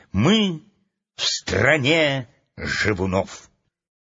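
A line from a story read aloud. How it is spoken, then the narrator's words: Solemn announcement. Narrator (Russian): Энни торжественно объявила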